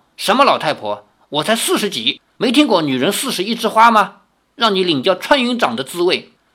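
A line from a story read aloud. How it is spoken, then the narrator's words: Angry. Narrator (Chinese): 李大娘怒道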